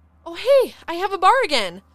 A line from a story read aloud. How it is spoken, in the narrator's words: Malia exclaimed